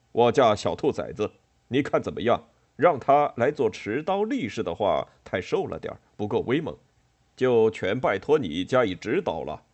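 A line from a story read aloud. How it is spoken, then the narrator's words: Unbothered, casual. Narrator (Chinese): 冠太郎却丝毫不以为意，继续说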